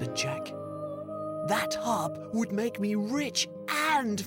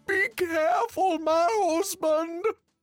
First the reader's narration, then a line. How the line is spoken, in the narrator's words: shouted the giantess from the castle